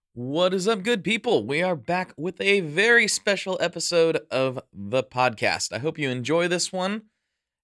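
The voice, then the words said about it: Scratchy, blown-out hoarse voice. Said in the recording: “my voice is a bit scratchy ... my voice is absolutely blown out from screaming at the top of my lungs”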